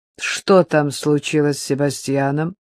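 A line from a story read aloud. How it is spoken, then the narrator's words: Displeased question. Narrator (Russian): спросил недовольным голосом хозяин кабинета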